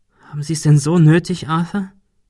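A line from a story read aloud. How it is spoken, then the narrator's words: Plain. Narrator (German): fragte Shirley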